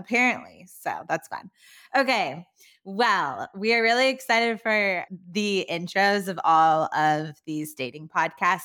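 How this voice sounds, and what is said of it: Valley Girl accent. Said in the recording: “is the more Valley Girl voice ... I'm still holding on to my Valley Girl accent”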